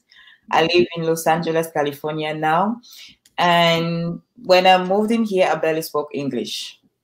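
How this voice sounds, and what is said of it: Cameroonian-accented English. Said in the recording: “I'm originally from Cameroon. That's why you have this beautiful accent.”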